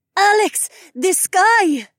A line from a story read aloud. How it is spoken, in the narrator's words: Zoe cried out